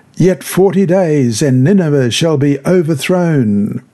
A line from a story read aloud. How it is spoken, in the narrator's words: he cried out and said